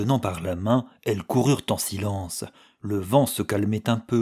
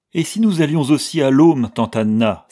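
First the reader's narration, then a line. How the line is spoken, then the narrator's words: Exclaiming. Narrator (French): s'écria Letty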